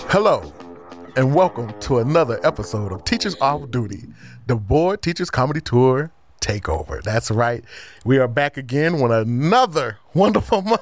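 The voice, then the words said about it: Polished professional announcer voice. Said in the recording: “That was my professional voice... giving my professional voice.”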